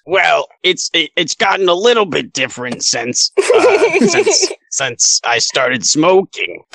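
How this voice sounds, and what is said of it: Las Vegas New York character accent. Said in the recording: “Eerily familiar voice ... is that a Las Vegas, New York accent?”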